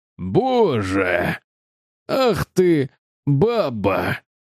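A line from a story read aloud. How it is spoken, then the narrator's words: Roaring. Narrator (Russian): проревел он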